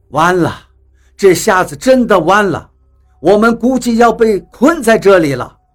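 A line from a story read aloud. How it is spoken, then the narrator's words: Sighing, dejected. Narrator (Chinese): 比利……叹气道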